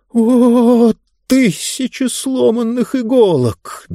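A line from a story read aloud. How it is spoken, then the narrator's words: Exclaimed. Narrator (Russian): воскликнул он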